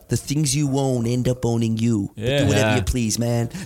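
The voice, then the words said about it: Put-on American accent, film character impression. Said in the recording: “That's a different American accent too. He's got more. He's got more in the repertoire. ... that was my Tyler”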